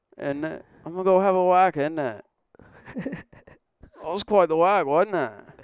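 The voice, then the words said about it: Poor put-on British accent, sounds Australian. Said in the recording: “How they say it in Britain ... You sound like a Australian. I'm not good at accents.”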